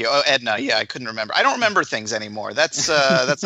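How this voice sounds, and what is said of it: Usual voice. Nothing is said of it.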